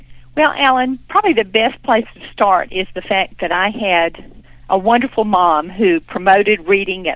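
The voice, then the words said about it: Southern American accent, calm. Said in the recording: “You have a wonderful Southern accent, and I think you're just going to make us all feel very calm”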